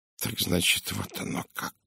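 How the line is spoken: Mumbling. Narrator (Russian): пробормотал он

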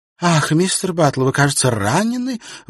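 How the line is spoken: Exclamation. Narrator (Russian): воскликнула она

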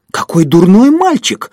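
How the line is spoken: Exclamation. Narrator (Russian): воскликнул Поль

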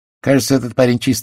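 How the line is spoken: Rather gloomy tone. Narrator (Russian): заключил инспектор довольно мрачным тоном

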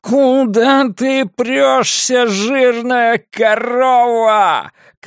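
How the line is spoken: Shouting. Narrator (Russian): кричал Харви

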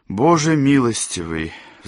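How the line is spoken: Sigh. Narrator (Russian): вздохнул Сэм

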